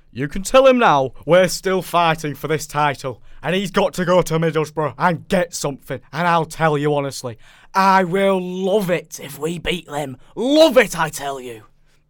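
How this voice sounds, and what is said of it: Put-on accent, imitates another person's voice. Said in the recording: “I don't know if I should do it in the accent. I can't do the accent. ... Can I do it?”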